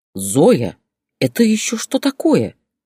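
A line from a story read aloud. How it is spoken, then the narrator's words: Indignant husband. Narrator (Russian): возмущенно спросил почти бывший супруг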